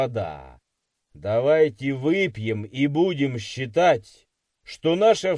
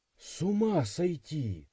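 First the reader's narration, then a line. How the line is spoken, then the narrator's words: Breathless exhale. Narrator (Russian): выдохнула Мария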